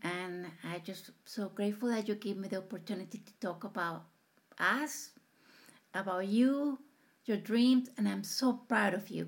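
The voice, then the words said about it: Latino-accented English. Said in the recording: “I have to face the world with my accent ... there are so many Latinos that they are afraid to open their mouth”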